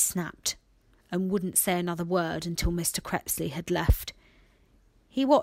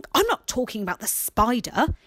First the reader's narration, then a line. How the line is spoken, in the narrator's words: he snapped